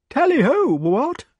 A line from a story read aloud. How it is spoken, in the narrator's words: in a feeble voice